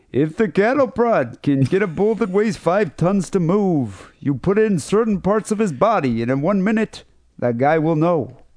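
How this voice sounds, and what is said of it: Put-on stereotypical Jewish accent. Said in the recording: “I should probably say this in a Jewish accent, because the guy's got to have one of those stereotypical Jewish voices”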